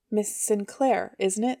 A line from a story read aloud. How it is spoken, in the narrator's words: he said